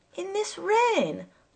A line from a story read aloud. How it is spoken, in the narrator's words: I cried indignantly